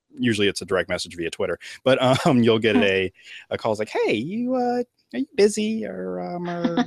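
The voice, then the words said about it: Sudden put-on accent. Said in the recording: “Why do I have that accent suddenly?”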